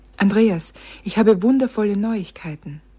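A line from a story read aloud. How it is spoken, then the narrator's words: Breathless. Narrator (German): sagte sie atemlos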